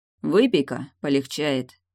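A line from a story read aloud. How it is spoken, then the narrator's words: Gloomy pronouncement, sorcerer. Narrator (Russian): мрачно изрек чародей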